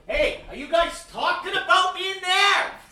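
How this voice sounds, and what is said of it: Put-on Brooklyn American accent. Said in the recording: “all of a sudden, ... from Brooklyn ... Was that Brooklyn? ... I don't know, Bronx.”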